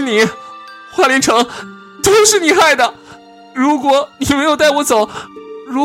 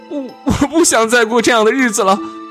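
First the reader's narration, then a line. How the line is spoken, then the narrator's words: Bursting into sobs. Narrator (Chinese): 伊旺忽然大哭起来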